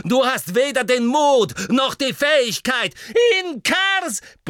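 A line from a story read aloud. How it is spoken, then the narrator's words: Bellowing. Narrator (German): brüllte Harry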